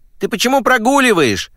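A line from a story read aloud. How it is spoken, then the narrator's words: Annoyed shout. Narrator (Russian): крикнула в ответ Клариса, досадуя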